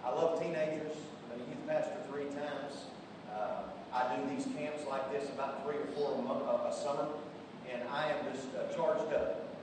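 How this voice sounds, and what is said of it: Strong regional accent. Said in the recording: “we're going to need an interpreter for this guy ... I pray that my accent doesn't throw everything off”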